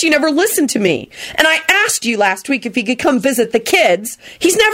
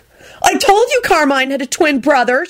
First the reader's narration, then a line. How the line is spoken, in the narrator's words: Shella said crossly